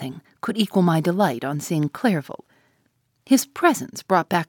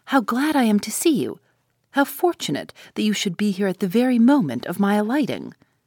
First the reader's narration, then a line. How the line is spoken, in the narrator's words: exclaimed he